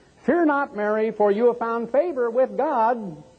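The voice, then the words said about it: High-pitched child's voice. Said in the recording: “the little child will come out and pipe in a little high voice”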